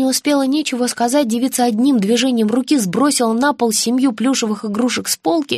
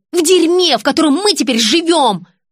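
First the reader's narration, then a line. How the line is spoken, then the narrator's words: Yelling. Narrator (Russian): заорала дочь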